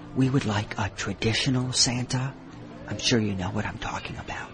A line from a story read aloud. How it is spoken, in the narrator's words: a woman whispered